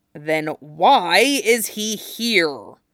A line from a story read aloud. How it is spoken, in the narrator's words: Jason growled